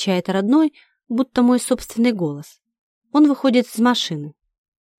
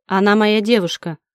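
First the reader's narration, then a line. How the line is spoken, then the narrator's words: Forced restrained tone. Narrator (Russian): отвечает Дима искусственно сдержанным тоном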